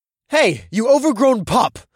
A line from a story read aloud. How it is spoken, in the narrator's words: I shouted